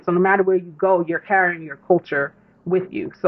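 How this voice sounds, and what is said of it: New York accent. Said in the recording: “I don't realize how I sound so New York”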